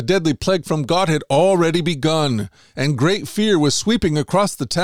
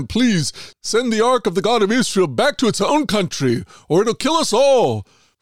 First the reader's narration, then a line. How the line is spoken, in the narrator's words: The people begged them